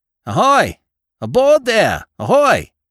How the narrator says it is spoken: he shouted time after time

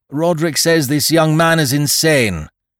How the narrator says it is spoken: roared the prof

